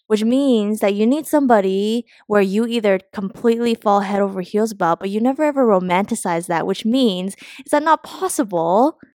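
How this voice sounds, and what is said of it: Accent coming through in speech. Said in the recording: “Why is your accent? Why is your accent coming?”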